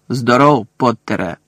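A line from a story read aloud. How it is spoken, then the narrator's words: Growled. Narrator (Ukrainian): прогарчав професор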